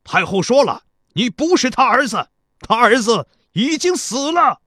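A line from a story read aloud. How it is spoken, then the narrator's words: Shouting up. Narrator (Chinese): 田国高声对城上喊道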